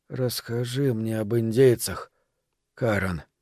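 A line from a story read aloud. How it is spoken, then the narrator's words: Barely audible request. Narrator (Russian): едва слышно попросил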